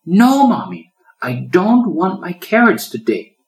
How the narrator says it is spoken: she exclaimed defiantly

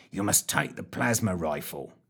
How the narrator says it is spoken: muttered Fitch

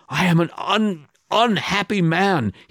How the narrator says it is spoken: moans

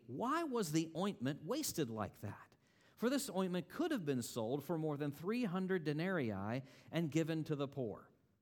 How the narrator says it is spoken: There were some who said to themselves indignantly

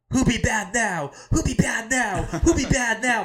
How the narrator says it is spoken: Dusty Rhodes for like a solid 15 seconds just repeatedly yells

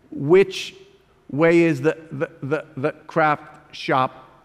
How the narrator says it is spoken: He stammered, his mouth contorting

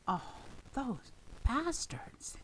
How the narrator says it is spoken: he hissed

